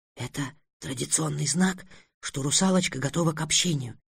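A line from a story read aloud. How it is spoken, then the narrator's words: Whisper. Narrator (Russian): прошептала одна из гномих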